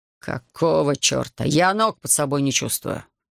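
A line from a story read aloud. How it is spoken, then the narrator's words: Irritated grumbling. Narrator (Russian): раздраженно бубнил он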